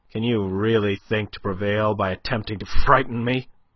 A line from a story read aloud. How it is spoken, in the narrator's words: he asked, almost sneered